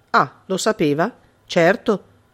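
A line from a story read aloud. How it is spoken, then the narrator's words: Plain. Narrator (Italian): disse l'altro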